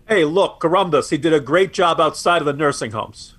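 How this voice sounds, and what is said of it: Deliberately bad New York accent. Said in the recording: “That's my very bad New Yorker accent there.”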